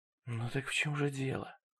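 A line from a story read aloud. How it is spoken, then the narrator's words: Whisper. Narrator (Russian): прошептала она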